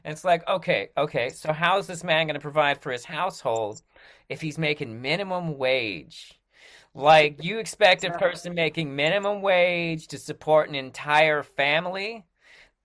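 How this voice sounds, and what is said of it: Imitates another person's voice. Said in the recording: “That was a great impersonation of Jordan Peterson, by the way. ... Even your arm movements, it was great.”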